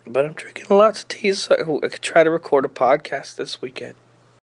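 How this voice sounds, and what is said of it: Sick, rough-sounding voice. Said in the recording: “my voice is all fucked up. I'm very sick. I'm real sick somehow... It was so bad... I was bad”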